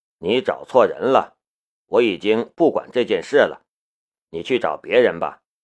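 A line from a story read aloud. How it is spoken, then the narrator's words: Calm, indifferent. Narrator (Chinese): 夏雷淡淡的道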